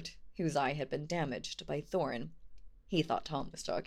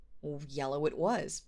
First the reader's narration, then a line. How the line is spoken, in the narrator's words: said William